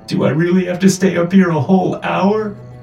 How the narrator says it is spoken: I whimpered

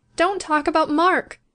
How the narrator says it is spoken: she pleaded again

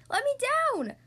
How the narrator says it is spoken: yells from the bucking robot

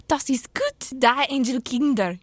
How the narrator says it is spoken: cried the poor things

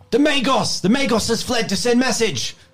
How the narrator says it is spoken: A guard shouts down says

